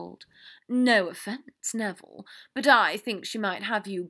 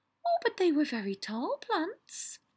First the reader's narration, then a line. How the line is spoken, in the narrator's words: Luna said happily